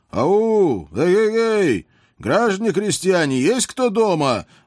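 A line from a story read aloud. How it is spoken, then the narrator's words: Loud shout. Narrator (Russian): громко прокричал я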